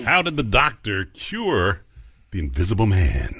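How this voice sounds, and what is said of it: Deep sexy character voice. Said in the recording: “sexy man with a deep voice”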